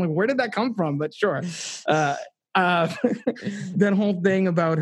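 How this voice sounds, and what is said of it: Usual voice. Nothing is said of it.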